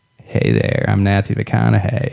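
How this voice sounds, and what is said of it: Matthew McConaughey impression. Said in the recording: “I try to talk to my wife like I'm Matthew McConaughey ... this is my impersonation ... You sound like Forrest Gump.”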